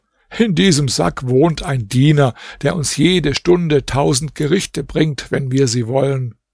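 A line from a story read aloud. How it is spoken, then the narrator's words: Laughing. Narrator (German): Abd Assamd sagte lachend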